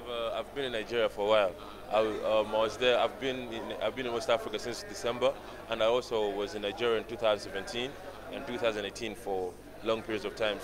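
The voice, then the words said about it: Distinct Nigerian accent. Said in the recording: “You have quite a distinct accent, a Nigerian accent.”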